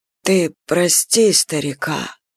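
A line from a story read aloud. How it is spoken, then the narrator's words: Quiet. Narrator (Russian): раздалось негромко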